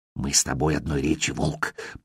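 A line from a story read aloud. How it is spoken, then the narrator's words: Small creature's whisper. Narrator (Russian): прошептал мелкий трель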